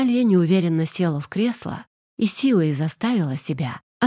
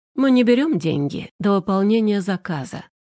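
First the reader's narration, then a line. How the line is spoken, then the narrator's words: Calm man explaining. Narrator (Russian): спокойно пояснил ей мужчина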